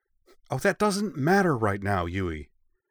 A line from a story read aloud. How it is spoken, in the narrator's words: Ritsu snapped